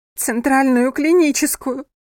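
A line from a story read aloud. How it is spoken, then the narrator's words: Trembling, holding back sobs. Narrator (Russian): дрожащим голосом ответила Йована, сдерживая рыдание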